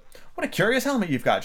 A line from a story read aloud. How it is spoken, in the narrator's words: she said cheerfully